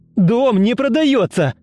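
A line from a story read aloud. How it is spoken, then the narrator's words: Shouting into phone. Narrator (Russian): Закричал он в трубку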